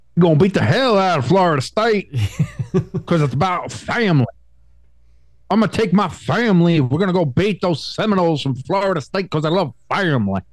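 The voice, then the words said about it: Fake Southern accent impression. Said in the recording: “In that fake Southern accent.”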